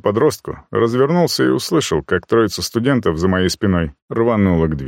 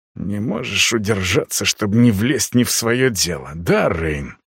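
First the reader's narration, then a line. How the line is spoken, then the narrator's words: Hiss. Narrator (Russian): прошипел Костян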